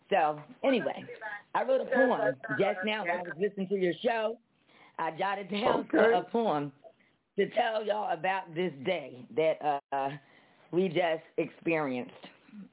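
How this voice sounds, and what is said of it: Hoarse voice. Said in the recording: “My voice is a little hoarse today... my voice is really hoarse today”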